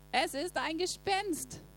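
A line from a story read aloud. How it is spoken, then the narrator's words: Terrified screaming. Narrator (German): meinten sie und schrien voller Entsetzen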